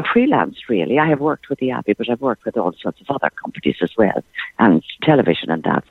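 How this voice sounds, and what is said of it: Polished Dublin Irish speaking voice. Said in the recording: “you've well and truly lost the Thurles accent in that beautiful speaking voice ... I'm from Dublin ... This is the way I always spoke.”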